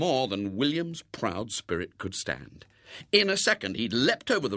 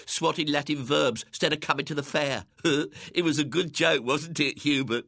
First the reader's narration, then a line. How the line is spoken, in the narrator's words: They giggled together